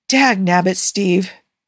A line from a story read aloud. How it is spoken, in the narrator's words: Tony says with a sigh